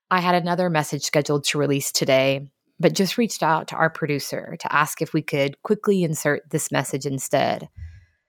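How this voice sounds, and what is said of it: Emotional, sighing voice. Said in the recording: “with a big gulp and a sigh and a whole lot of emotion that you will undoubtedly hear in my voice.”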